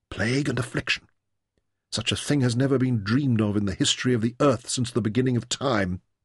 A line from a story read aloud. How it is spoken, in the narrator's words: Taita whispered